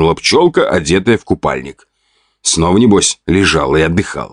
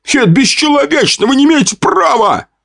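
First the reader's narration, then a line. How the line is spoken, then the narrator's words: Shout from crowd. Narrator (Russian): выкрикнул один из толпы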